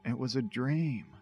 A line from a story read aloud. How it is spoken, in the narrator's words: he whispered